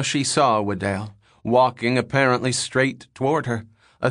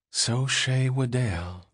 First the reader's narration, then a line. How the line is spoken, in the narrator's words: the girl breathed